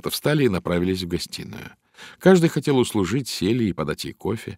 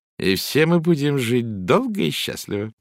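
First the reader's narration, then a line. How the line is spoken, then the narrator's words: With a short laugh. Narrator (Russian): Валерия произнесла, коротко хохотнув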